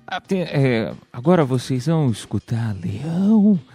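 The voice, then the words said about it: Deep radio announcer voice. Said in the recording (Portuguese): “tenta fazer uma voz bonita pra ver se sai... com voz de locutor”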